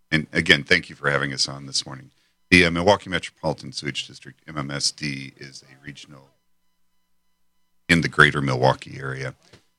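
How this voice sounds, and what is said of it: Radio voice. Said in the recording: “you got that radio voice. you really do”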